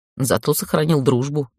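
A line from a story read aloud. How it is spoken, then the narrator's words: Snort. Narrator (Russian): хмыкнул он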